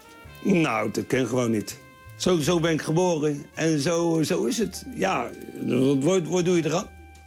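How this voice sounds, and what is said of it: Strong Hague (Haags) Dutch accent. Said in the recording (Dutch): “hij zou te Haags praten ... de Haagse accent”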